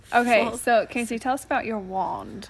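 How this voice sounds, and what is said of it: Put-on British accent. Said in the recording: “I'm glad that you just said that in an accent because I was thinking that I'm not going to be able to make it through this podcast episode without just pretending to speak in a British accent.”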